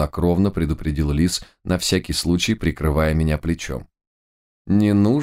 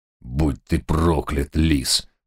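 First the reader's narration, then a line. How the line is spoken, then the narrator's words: Blind villain's hoarse curse. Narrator (Russian): прохрипел слепой злодей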